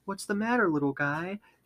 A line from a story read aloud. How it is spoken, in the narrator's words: She says in a soft, soothing voice